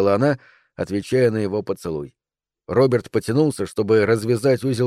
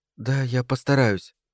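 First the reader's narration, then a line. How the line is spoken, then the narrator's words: Timid. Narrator (Russian): сказала она, робко пожимая плечами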